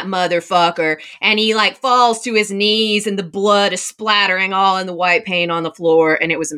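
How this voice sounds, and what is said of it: Usual voice. Nothing is said of it.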